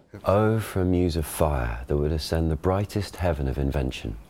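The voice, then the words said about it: Shakespearean original pronunciation accent. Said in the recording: “original pronunciation ... Ben gives the modern pronunciation, and David the OP.”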